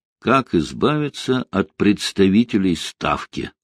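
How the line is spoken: Plain. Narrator (Russian): сказал Рокоссовский

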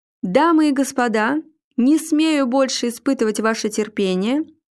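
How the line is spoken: Loud announcement over drumroll. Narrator (Russian): громко объявил ведущий под усиливающуюся барабанную дробь

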